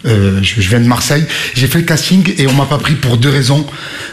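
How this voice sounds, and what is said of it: Marseille French accent. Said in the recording (French): “j'avais l'accent marseillais”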